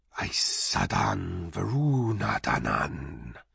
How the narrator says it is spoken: said the vast hissing voice, like a sea of cymbals

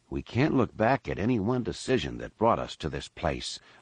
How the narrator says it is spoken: Lando said quietly

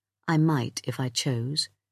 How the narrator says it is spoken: he said in a calm voice

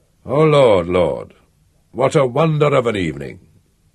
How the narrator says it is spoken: sighed Count Orlant, in a strong provincial accent, submissively, as if asking what he'd ever done to merit so fine an evening

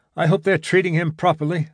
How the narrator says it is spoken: said Gibson anxiously

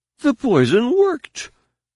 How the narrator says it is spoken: Danny's words were carried on a barely suppressed and incredulous laugh of relief

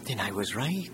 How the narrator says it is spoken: Safa said

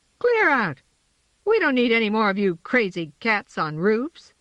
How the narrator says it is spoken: she said indignantly

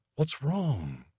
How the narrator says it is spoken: Sean whispered

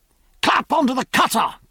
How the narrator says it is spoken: cried Jack

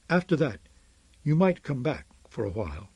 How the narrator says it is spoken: my mother said in her usual soft voice, suggesting, not stating

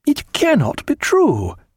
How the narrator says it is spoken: cried Martin

